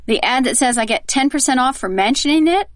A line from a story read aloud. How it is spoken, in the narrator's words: mouth-breather saying with a snort and a sneer